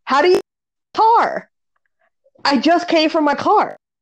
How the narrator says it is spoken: I hear this lady yell, and I thought she said

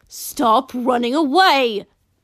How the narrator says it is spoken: she grunted

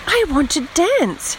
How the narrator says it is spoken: she cried

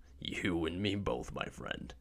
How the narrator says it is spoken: White chuckles

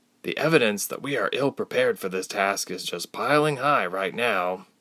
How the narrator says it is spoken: Ilse grumbled

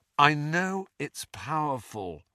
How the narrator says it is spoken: said Harry wearily

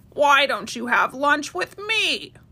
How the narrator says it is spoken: croaked a little frog

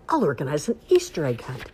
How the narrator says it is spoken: Duck quacked happily

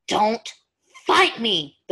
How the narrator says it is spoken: the werewolf snapped

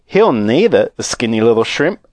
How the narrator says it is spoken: a girl said laughing

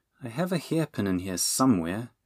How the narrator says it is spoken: she muttered

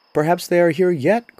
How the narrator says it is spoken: cried another

